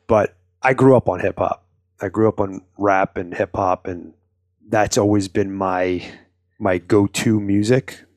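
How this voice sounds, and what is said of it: New York accent. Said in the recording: “heard it in my voice that I have a New York accent”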